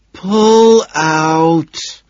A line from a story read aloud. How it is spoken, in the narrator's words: she groans, struggling